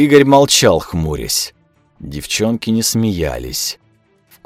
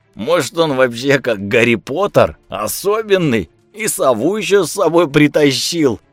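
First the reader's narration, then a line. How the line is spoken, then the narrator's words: Loud guffawing. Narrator (Russian): Он громко заржал, ожидая поддержки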